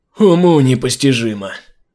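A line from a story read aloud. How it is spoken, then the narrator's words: Sigh. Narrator (Russian): вздохнул Усама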